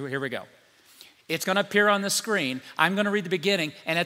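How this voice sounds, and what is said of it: Usual voice. Nothing is said of it.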